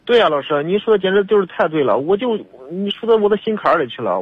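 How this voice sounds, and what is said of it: Hebei regional accent. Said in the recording (Chinese): “您这口音是哪儿的？ ... 我是河北的。”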